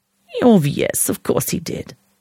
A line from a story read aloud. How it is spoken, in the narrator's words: Anna purred